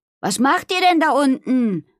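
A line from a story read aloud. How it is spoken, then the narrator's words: Called out. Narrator (German): rief sie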